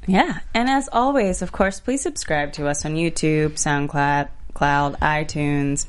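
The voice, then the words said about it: Texan accent slipping through. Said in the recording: “My accent just kicked in... Texas”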